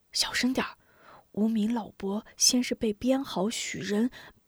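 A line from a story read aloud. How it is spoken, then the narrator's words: Whisper. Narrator (Chinese): 吴中……仍然悄声道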